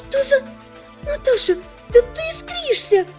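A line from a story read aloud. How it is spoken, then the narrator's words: Exclaiming. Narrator (Russian): воскликнула Лана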